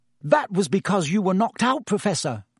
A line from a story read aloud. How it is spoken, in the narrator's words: said Hermione earnestly